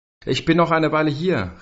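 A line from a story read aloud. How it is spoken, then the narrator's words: Calling out. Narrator (German): rief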